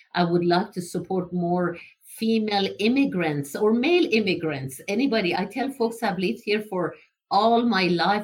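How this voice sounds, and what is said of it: Non-native foreign accent. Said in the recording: “I cannot lose my accent.”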